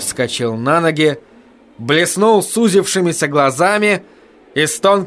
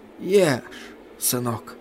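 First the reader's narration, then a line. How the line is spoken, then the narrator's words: Whisper. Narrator (Russian): шепотом повторил он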